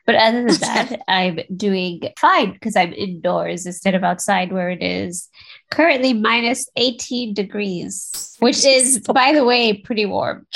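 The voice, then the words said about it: Congested voice. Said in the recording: “I'm sure you can hear it. My voice is a little bit congested.”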